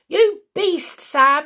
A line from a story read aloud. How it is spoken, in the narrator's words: yelled the small boy